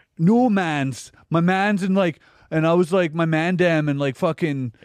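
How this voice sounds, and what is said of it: Mock Toronto fake-Jamaican accent. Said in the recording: “Toronto ... they got the worst accent in the world ... The white people who pretend they're Jamaican in Toronto have the worst fucking accent in the world”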